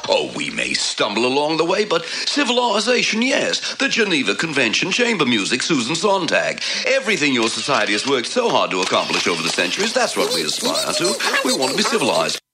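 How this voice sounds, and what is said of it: Australian accent. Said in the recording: “your Australian talking gremlin. So you can hear it veer off into that accent.”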